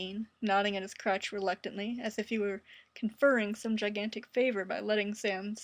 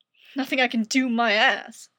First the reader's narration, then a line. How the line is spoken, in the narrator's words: snapped Dean